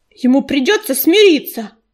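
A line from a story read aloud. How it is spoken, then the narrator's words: Barked. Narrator (Russian): рявкнул ежевика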